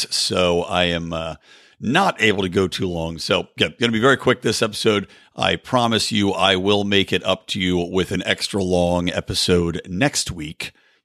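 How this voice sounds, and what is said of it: Harsh, hoarse, strained voice. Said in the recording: “my voice is a little bit harsh today ... lost my voice ... before my voice completely gives out”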